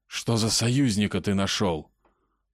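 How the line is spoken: Hissed. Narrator (Russian): прошипел Илья

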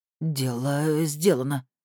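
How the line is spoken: Trembling voice. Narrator (Russian): дрожащим голосом ответил Николай Иванович

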